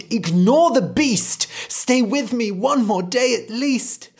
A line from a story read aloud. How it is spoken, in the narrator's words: The mother cried